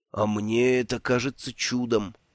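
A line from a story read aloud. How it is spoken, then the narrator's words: Hoarse rasp. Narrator (Russian): прохрипел Бруто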